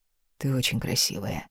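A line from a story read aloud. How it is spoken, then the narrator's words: Quiet. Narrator (Russian): произнес тихо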